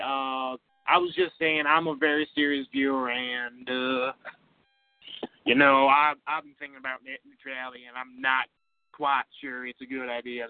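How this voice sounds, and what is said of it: Poor fake Texan southern twang. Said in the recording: “was imitating Texan, but is from Montana ... get that goddamn southern twang a little bit better there, you stupid poser”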